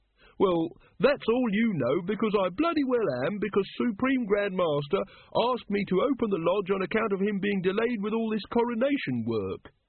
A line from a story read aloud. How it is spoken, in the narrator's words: said Brother Watchtower haughtily